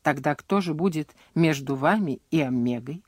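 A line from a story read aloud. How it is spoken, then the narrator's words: Calm question. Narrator (Russian): спокойно спросил Дженкинс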